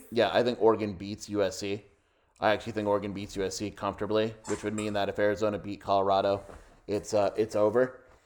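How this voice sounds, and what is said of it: Strained, hoarse voice giving out. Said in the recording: “My voice is literally going. That's how excited I am.”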